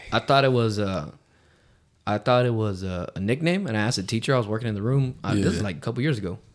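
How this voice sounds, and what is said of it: Slightly hoarse, sore-throated voice. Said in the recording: “I have a little bit of a sore throat. ... Last night, my fucking throat was lava.”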